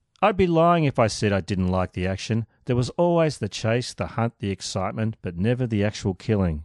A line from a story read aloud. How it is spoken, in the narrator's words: he said